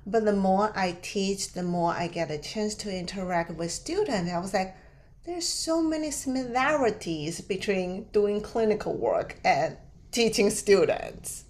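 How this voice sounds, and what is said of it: Non-native English accent. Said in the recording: “English is not my first language, like, and I have an accent”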